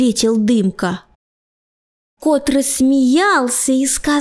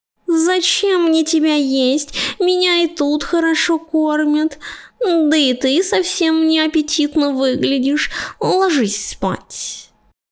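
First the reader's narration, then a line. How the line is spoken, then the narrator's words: Sleepy. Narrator (Russian): Сонно добавил Пушистый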